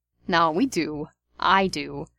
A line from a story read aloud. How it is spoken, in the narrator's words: Steve said